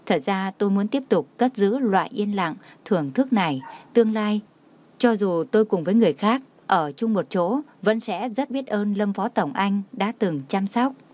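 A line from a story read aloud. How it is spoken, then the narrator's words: Smiling, choked with heartache. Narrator (Vietnamese): Nhã Tuệ mỉm cười, đau lòng nghẹn ngào nói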